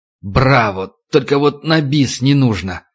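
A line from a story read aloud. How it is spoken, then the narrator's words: Burly man growling. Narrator (Russian): Снова зарычал квадратный качок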